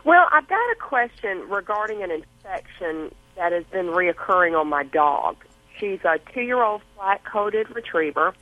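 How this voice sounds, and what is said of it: Southern American accent. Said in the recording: “I love your accent. I love that Southern accent.”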